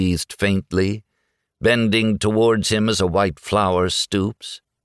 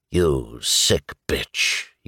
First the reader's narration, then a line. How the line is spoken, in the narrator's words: he muttered